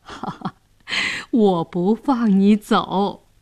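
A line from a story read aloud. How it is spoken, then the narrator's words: Laughing. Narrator (Chinese): 姑姑 笑着说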